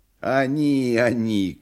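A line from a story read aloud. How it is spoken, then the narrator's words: Sang in bleating voice. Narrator (Russian): козлиным голосом запел длинный клетчатый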